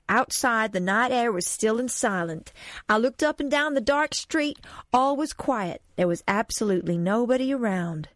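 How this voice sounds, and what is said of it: Put-on American accent. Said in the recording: “I should do the American voice now.”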